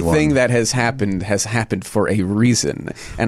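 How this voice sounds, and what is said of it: Usual voice. Nothing is said of it.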